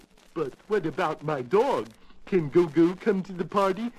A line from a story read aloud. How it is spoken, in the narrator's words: asked Alice